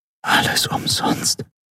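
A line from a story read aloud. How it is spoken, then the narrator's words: Whispered. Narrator (German): flüsterte sie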